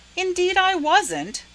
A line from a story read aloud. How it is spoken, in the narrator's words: said Laura indignantly